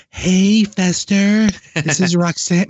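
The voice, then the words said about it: Imitates another person's voice. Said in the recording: “My Roxanne impression is getting really good.”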